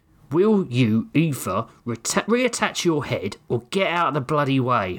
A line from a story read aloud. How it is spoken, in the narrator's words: Horgrim shouted